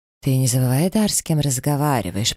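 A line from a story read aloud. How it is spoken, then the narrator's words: Through gritted teeth. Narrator (Russian): процедил посол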